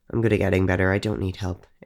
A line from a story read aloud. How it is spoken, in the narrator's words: Ava mumbled